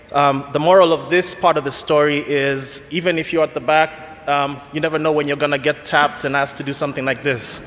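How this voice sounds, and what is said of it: Kenyan accent. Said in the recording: “my accent. It's Kenyan.”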